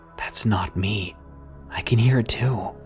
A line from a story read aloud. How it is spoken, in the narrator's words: Very quietly, I said